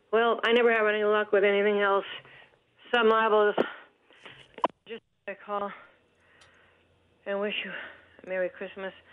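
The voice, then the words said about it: Out of breath. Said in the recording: “I'm out of breath”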